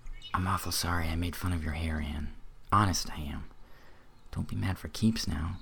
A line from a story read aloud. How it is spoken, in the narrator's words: he whispered contritely